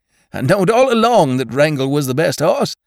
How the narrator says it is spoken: exclaimed Judkins, with his lean face working and his eyes lighting

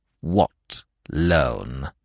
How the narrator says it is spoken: inquired the statue icily

